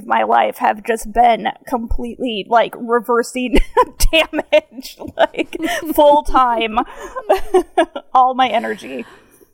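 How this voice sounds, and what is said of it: Hard-to-place northern vowel-shift accent. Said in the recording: “I hear an accent ... it's a real weird one. ... It's like a northern vowel shift”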